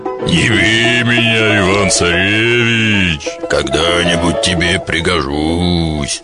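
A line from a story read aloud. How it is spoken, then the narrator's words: Bear speaking humanly. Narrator (Russian): А медведь говорит ему человеческим голосом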